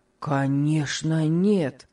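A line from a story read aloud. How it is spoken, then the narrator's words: Sudden energetic exclamation. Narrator (Russian): С неожиданной энергией воскликнул Том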